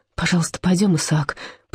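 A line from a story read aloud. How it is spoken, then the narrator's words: Rasped. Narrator (Russian): прохрипела она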